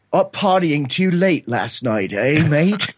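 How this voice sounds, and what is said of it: Quoted line in British accent. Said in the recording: “I hear this British accent go”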